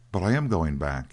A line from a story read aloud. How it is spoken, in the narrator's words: answered Dan in a rather hurt voice